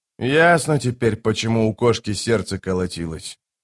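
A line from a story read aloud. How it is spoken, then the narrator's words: Quiet mutter to himself. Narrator (Russian): тихо пробормотал себе под нос капитан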